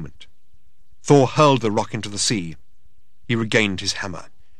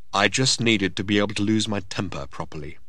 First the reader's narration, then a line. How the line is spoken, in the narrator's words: he said